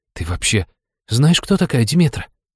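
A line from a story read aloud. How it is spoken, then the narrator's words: Suspicious question. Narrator (Russian): с подозрением спросил он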